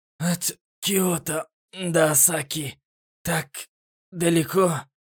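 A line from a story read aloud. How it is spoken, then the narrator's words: Wheezing, breathless. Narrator (Russian): просипел, задыхаясь, Эл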